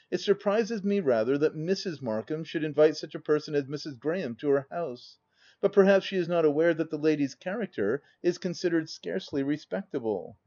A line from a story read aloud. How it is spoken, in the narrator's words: replied she coolly, having quickly recovered her self-possession